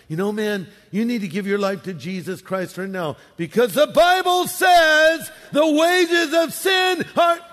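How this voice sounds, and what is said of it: Yelling preachy Bible quote. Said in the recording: “Why are you yelling”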